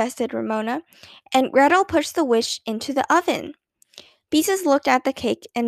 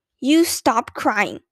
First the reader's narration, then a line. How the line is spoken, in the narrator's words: she ordered Ramona furiously